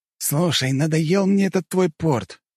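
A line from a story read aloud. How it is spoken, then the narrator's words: Exclaimed, then heavy sigh. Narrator (Russian): воскликнул он, после чего тяжело вздохнул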